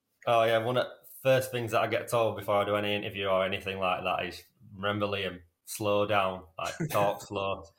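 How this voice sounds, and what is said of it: Strong Yorkshire accent. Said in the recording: “you've got quite a strong Yorkshire accent”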